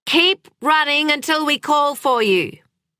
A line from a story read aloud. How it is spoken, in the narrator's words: shouted Sam from the living room